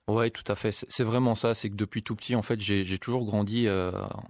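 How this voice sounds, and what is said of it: French accent, not Belgian. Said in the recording (French): “vous avez peut-être chopé un peu l'accent français, hein, parce que j'ai pas reconnu l'accent carolo ... j'ai laissé de côté malheureusement l'accent belge”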